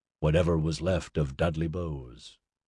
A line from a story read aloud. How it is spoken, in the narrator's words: Wilson said grimly